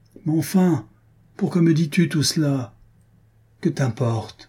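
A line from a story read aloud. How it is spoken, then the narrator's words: Exclaiming. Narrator (French): s'écria-t-il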